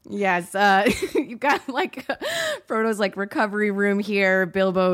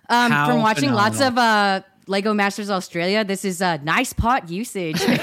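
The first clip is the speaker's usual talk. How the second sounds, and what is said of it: Put-on Australian or New Zealand accent. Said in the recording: “I think that was an Australian accent. I'm not totally sure. ... It was at least New Zealandic”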